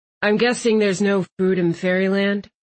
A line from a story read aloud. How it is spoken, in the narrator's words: Landon said ... sadly